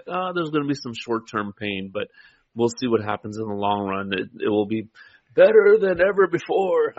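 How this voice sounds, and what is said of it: Poor imitation of another person's voice. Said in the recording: “I'm not a good Trump impersonator. ... You're a terrible Trump impersonator.”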